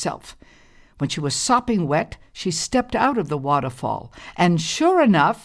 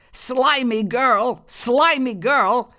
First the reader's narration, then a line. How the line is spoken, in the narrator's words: Thorny cried all the way home